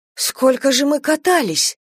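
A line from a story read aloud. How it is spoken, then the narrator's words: Embarrassed exclamation. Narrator (Russian): смущенно воскликнула она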